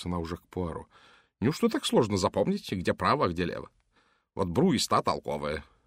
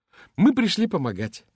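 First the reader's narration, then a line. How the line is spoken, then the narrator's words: Cheerful woman. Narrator (Russian): весело сказала она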